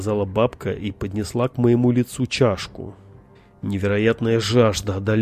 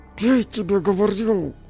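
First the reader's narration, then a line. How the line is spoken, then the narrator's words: Old woman, through teeth. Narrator (Russian): Сквозь зубы процедила бабка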